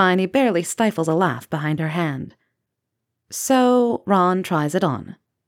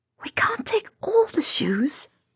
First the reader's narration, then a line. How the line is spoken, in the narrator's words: Hermione whisper argues